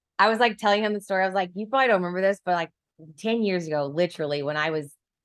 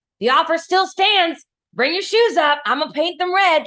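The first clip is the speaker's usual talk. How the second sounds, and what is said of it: Put-on country accent, old man voice. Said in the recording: “I gave him a country accent ... her voice for old men”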